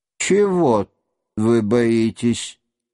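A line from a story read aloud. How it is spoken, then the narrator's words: Slow speech. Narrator (Russian): медленно проговорил князь Андрей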